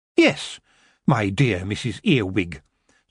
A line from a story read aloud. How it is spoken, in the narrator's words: Tiffany said back rather sharply